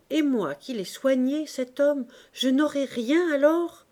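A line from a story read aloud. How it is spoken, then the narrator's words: Exclaiming. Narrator (French): s'écria la portière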